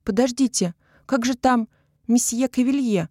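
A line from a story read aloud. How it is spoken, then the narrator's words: Exclaiming. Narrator (Russian): воскликнула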